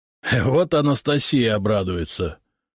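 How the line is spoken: Laughing again. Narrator (Russian): снова рассмеялся сотник

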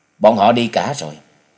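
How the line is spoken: Cold. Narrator (Vietnamese): hắn lại lạnh lùng thành tính, nên lên tiếng nói

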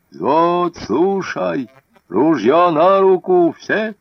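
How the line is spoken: Commanding, resonant voice. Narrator (Russian): Мале скомандовал звучным голосом

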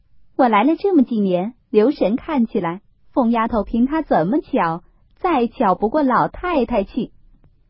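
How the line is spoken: Laughing. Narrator (Chinese): 宝钗一旁笑道

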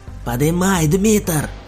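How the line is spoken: Shout. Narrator (Russian): крикнул Олег

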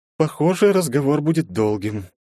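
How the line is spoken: Heavy sigh. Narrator (Russian): тяжело вздохнула Алена

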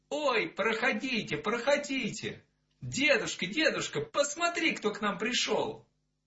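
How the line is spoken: Joyful invitation. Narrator (Russian): радостно пригласила

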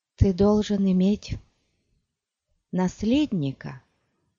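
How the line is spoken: Barely audible breath. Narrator (Russian): выдохнула она чуть слышно

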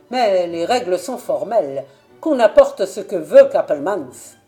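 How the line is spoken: Curt. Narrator (French): dit le bourgmestre d'un ton bref

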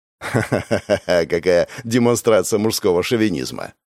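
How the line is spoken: Laughing. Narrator (Russian): посмеялся Гоша

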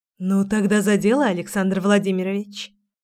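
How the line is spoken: Whispered against lips. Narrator (Russian): прошептала я в его губы

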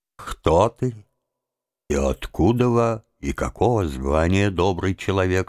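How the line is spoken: Neutral, neither warm nor stern. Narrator (Russian): сказал сотник ни ласково, ни сурово

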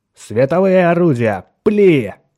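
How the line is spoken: Barked. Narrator (Russian): рявкнул Меррик

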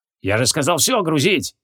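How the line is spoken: Barked. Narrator (Russian): рявкнул Амбал

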